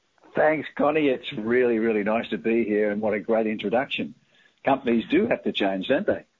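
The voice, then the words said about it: Speaks with a noticeable foreign accent. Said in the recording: “don't you just love ... accent? ... I can listen all day ... to hear your accent”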